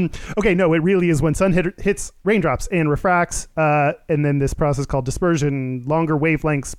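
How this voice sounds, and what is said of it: Usual voice. Nothing is said of it.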